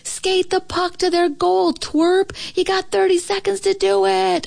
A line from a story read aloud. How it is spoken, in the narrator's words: yell